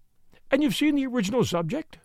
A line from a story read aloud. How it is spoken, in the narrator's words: She said timidly